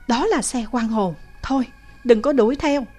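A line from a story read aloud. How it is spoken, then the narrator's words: Frightened. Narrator (Vietnamese): Tommy có vẻ sợ hãi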